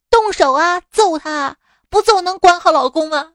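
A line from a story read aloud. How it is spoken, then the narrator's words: Loud, forceful. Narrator (Chinese): 婆婆大声说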